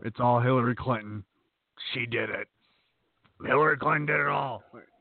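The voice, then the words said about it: Imitates another person's voice. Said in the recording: “That's my best Alex Jones impression.”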